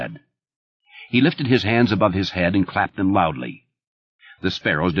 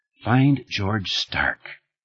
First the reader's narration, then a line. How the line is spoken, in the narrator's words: Thad said in a quiet voice, really not much more than a whisper